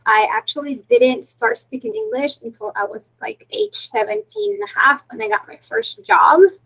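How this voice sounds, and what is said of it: Heavy non-native English accent. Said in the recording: “I still have a heavy accent”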